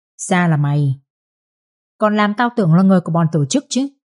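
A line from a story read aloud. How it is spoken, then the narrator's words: Harsh, gritted voice. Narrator (Vietnamese): Vũ gằn giọng và nói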